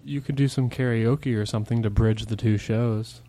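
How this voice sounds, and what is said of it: Unusually soft, gentle speaking tone. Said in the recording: “Why are you changing your tone to be so soft like that? ... Talk normal.”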